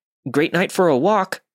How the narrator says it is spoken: I was so nervous that I blurted out

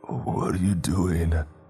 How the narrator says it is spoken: he slurred, his voice hoarse

